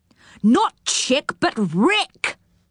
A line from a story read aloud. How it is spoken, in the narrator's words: shouted Moonface